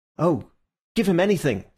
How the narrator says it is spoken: said Syme eagerly

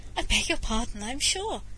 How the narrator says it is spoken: would give a pleasant little laugh and say

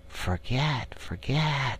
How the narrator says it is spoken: they sigh, and it dies away in a rustle and a whisper

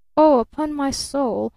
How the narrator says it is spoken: groaned the man

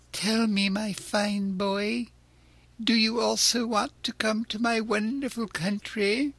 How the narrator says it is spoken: he asked in a wheedling tone

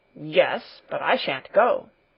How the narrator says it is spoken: Peter growled

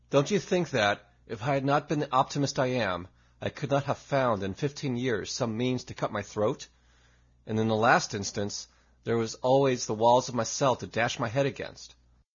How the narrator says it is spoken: after a gasp or two, he added

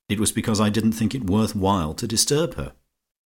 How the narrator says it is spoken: said Georgie icily

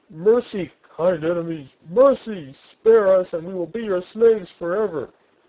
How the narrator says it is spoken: The other officers … begged for mercy

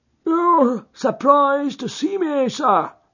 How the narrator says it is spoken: said he in a strange, croaking voice

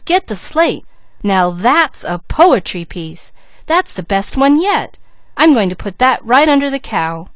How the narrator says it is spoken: cried Peaches

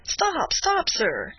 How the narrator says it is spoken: cried Candide

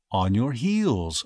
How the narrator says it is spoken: replied gently

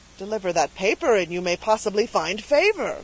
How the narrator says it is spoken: cried Dunwoodie, expecting a discovery of importance to the cause

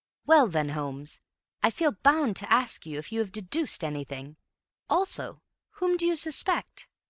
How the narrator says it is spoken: Bill said in a firm voice

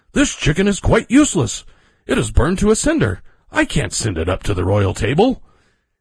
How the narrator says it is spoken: he cried in horror

